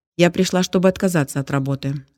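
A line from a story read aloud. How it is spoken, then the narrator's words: Young woman, calm. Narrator (Russian): спокойно сказала молодая женщина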